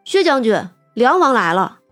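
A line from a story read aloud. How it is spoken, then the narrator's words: Sudden call. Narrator (Chinese): 长生忽然来叫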